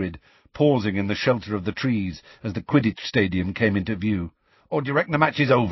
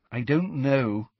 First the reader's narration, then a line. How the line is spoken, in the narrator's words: said Hermione miserably